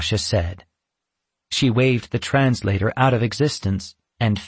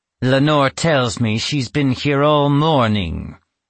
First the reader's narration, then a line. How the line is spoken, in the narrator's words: Natasha said through gritted teeth